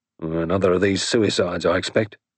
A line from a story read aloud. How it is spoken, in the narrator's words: he grunted disconsolately